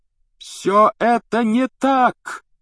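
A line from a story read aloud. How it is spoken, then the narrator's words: Shouting. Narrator (Russian): закричал Гарри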